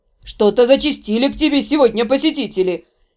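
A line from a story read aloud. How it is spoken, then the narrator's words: Displeased grumble. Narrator (Russian): Недовольно буркнула Дора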